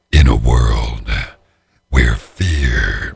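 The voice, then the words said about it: Deep dramatic movie-trailer voice. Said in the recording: “I can have like this really scary voice. Yeah, where I drop my voice like crazy”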